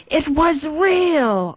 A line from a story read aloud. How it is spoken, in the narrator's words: I cried out